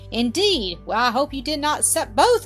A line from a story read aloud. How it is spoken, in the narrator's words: Mildred said laughingly